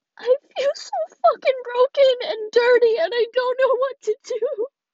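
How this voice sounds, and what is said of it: Crying, tearful angry voice. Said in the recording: “I sound like a fucking crybaby right now ... when I'm pissed, I fucking cry.”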